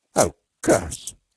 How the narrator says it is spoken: said Beetle uneasily

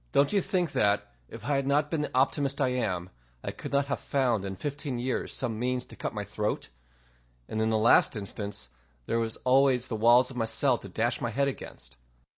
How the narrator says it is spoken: after a gasp or two, he added

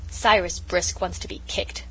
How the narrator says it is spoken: growled Felix

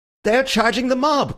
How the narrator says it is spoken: cried Bull, in ecstasy or alarm

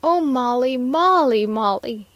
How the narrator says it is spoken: he shouted

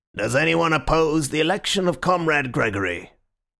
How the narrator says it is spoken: the chairman said in a colourless voice

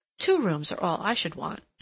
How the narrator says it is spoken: continued, with a curious sigh

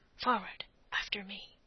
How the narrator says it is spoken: Blood, and whispered

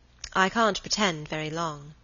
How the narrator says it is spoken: said Helen

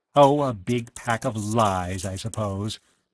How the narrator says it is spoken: Edith Shaw said scornfully

